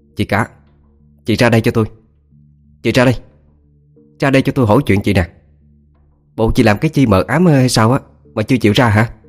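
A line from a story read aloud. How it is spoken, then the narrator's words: Scolding shout. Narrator (Vietnamese): tiếng quát nạt của bà Hai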